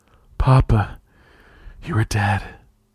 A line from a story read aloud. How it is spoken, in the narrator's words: she breathed